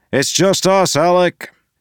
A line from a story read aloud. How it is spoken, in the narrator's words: Wax called out